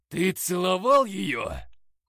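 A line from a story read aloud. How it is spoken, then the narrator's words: Hissing demon. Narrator (Russian): прошипел демон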